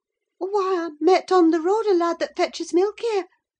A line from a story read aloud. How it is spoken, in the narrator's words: she stammered